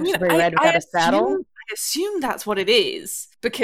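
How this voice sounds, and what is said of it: Usual voice. Nothing is said of it.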